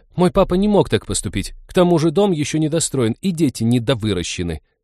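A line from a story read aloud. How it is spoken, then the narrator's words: Indignant. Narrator (Russian): возмущенно подхватила Лиза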